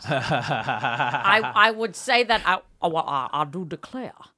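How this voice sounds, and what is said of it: Mocking imitation of another's accent. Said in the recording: “I gave a little accent back to him ... honoring your accent. You are ridiculing mine. ... your folding of her accent into yours”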